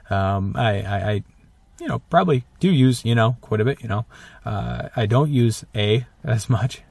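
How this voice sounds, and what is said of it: Northern Minnesota accent. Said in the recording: “Minnesota, actually. So pretty close, northern Minnesota ... the Minnesotan accent”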